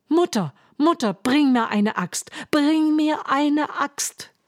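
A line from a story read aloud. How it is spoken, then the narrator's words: Shouted. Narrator (German): rief er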